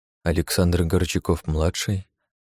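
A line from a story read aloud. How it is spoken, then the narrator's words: Reading in an undertone. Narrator (Russian): прочитал я вполголоса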